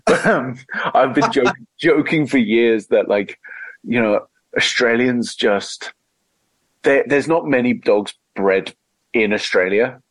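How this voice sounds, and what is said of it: Mixed Australian and English accent. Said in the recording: “you sound more English to me ... I sound a lot more Aussie ... English as hell ... It's a mongrel accent.”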